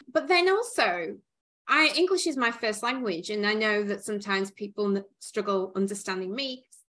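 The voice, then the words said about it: Northern English accent. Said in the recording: “I have an accent. I may have an accent... the northern part of England, especially Newcastle, they struggle to understand”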